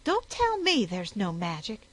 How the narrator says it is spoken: she said sharply

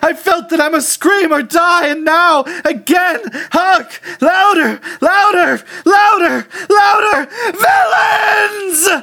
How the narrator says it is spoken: I shrieked

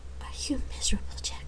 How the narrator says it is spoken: she asked softly

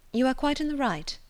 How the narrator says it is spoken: replied Eleanor calmly

